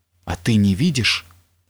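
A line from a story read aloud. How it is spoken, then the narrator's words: Whisper. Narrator (Russian): зашептал Александр Иванович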